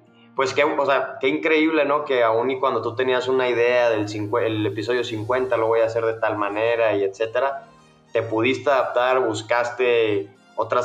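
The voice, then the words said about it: Mexican Spanish accent. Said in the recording (Spanish): “por tu acento ya todos logran deducir que sos mexicano”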